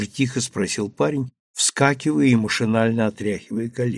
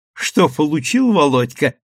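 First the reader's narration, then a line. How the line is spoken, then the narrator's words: Short laugh. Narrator (Russian): хохотнула одна из девушек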